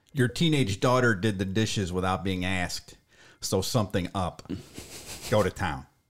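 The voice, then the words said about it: Nasal Cleveland accent. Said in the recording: “It's like nasally, I guess... almost Fran Drescher-like... That's my best Cleveland accent.”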